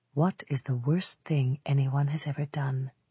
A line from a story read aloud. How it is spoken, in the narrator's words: Campbell murmured to himself